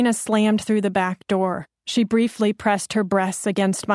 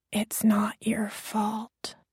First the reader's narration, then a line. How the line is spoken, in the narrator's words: And I whispered